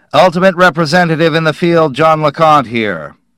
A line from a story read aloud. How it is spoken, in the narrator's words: LeConte said into it loudly